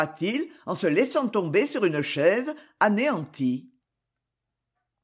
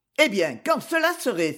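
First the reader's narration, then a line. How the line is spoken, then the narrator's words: Exclamation. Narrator (French): s'écria-t-il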